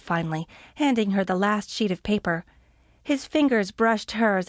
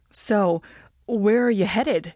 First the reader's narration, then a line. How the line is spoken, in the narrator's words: She stammered for a moment, her mind going completely blank